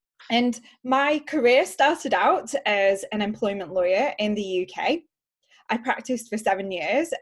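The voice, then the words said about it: British accent. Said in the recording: “charming accent ... as you can tell from the accent, I am from the UK”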